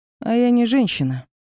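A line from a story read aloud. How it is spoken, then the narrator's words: Mocking retort. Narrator (Russian): бросила насмешливо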